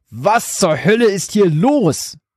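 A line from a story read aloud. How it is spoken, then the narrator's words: Roaring, breathless. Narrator (German): brüllte ihr Vater keuchend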